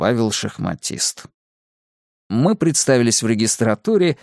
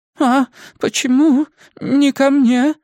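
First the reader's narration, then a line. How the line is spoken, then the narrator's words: Old woman's trembling voice. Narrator (Russian): спросила дрожащим голосом пожилая дама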